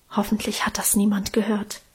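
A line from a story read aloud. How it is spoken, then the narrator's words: Whisper. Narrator (German): Karl scheu flüsterte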